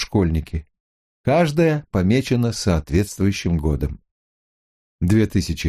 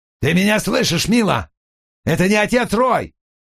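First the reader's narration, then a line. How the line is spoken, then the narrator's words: Yelling into transmitter. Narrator (Russian): орал он в передатчик, не получая ответа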